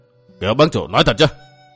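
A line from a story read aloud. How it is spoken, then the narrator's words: Stern. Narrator (Vietnamese): Bành Dung nghiêm giọng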